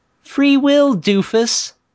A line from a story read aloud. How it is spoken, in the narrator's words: mocked